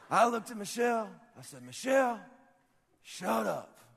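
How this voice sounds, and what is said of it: Imitates another person's voice. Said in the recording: “This is my best Rick impression, ... that's pretty close.”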